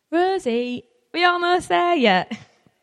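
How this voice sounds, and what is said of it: Poor put-on Yorkshire accent. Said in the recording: “That's my really poor attempt at a Yorkshire accent.”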